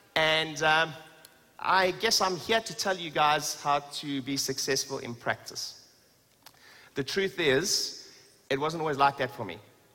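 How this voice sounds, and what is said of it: South African accent. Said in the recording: “where's my accent originally from? ... South Africa.”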